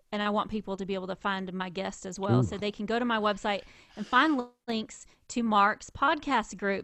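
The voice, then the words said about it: Southern American accent. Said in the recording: “if my Southern is coming way out today ... Her accent is seasonal too, depending on how recently she's gone and visited the South.”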